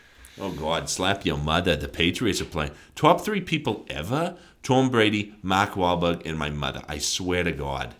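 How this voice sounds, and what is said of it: Put-on Boston accent. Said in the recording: “Boston? ... That was really good. That was a really good accent.”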